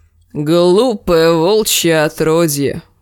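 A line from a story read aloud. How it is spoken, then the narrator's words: Creaky rasping voice. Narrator (Russian): проскрипел он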